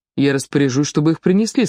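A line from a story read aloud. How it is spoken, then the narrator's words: Plain. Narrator (Russian): сказал бургомистр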